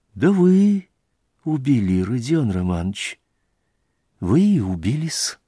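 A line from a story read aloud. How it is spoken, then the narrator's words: Convinced near-whisper. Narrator (Russian): прибавил он почти шепотом, совершенно убежденным голосом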